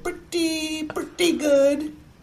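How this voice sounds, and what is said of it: Imitates another person's voice. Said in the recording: “my Larry David impression”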